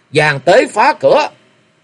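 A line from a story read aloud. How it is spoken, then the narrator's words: Men shouting. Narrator (Vietnamese): bọn cẩm y vệ quát tháo lên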